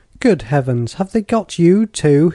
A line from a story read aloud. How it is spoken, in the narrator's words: he exclaimed